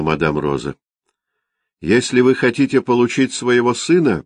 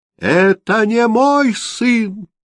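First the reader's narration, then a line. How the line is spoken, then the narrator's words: Heartrending cry. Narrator (Russian): душераздирающе крикнул он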